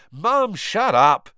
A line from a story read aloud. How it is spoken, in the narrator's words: Ron yelled